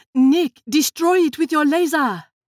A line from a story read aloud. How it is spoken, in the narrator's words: Lily called out